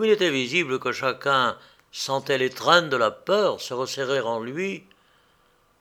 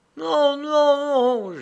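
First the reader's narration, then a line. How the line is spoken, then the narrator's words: Mixed moaning and crying voices. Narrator (French): gémirent ou crièrent certaines voix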